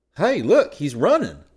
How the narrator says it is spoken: Scotty exclaimed

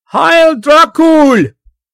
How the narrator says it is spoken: he shouted

